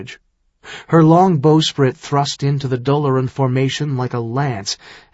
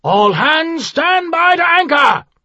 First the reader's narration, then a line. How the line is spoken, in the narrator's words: Manthir shouted